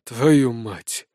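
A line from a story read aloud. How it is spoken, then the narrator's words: Grumbled. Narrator (Russian): буркнул он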